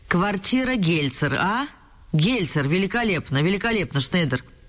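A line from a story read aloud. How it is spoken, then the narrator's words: Loud laughter. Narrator (Russian): громко рассмеялся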